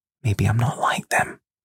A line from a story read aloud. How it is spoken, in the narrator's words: She whispers into my ear